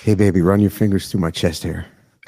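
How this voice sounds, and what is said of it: Put-on seductive bedroom voice. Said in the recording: “bedroom voice”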